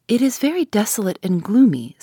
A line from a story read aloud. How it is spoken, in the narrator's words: said Laura